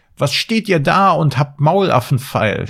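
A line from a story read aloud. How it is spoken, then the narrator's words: Dwarf's furious shout. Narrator (German): schrie der Zwerg, und sein aschgraues Gesicht war zinnoberrot vor Zorn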